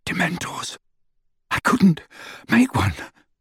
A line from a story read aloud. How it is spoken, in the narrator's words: he panted, clutching the stitch in his side